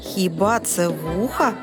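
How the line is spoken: Laughing parrot. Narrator (Ukrainian): засміявся папуга

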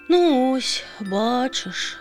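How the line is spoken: Dejected sigh, small bird. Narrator (Ukrainian): знову зітхнула пташка і похнюпилася

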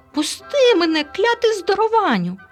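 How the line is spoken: Shrieking. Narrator (Ukrainian): заверещав Елуа

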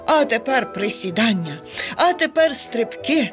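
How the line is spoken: Joyful panting. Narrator (Ukrainian): радісно хекав він

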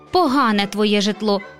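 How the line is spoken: Grumpy muttering. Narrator (Ukrainian): буркнула вередлива гостя

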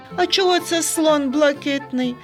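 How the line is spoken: Laughed. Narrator (Ukrainian): засміявся Сергійко

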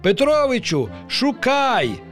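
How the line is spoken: Exclaiming fish. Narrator (Ukrainian): вигукнула риба

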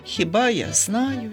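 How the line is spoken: Sighing. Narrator (Ukrainian): зітхнув Ромчик

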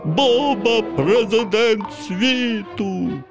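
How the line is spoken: Silly zombie-voiced shout. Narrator (Ukrainian): перетворився Ваня на зомбі і вигукнув дурним голосом

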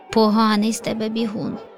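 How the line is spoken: Laughing young leopard. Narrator (Ukrainian): Засміявся леопардик

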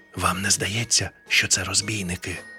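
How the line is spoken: Whispered question. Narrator (Ukrainian): пошепки спитав привид

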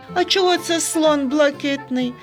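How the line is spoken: Laughing. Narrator (Ukrainian): засміявся Сергійко

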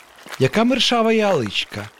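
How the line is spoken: Dad's joyful exclamation. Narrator (Ukrainian): радісно вигукнув татусь

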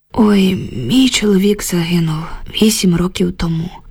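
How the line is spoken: Heavy sigh. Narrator (Ukrainian): важко зітхнула Люба

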